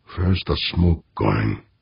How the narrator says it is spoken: He muttered

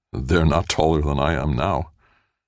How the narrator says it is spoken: almost laughed bitterly to himself as he thought

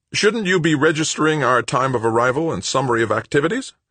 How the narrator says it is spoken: Brennard snapped

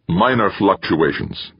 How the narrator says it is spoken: Timoshenko snapped

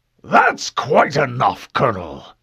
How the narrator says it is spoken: the older man snapped

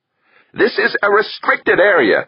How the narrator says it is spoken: snapped at them

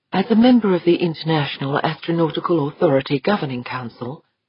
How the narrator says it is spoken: she said at last, so softly

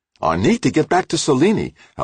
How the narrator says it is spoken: Halleck snapped

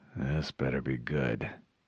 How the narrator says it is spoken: he muttered

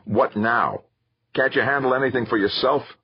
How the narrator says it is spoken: Victor Zacharias replied testily

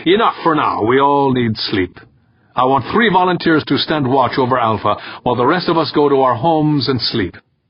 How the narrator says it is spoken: Urbane said loudly

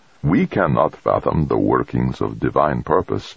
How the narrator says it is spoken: the confessor said

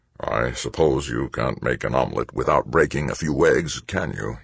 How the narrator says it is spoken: He murmured

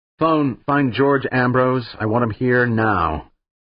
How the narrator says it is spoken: He snapped forward in the chair and said into the phone console

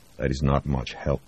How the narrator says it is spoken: Voznesensky muttered

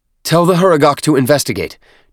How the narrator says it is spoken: Chur-Uyar snapped

